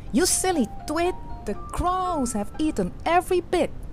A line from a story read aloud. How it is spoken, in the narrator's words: Young Gretel cried